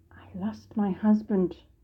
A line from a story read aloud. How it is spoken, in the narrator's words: Michelle whispered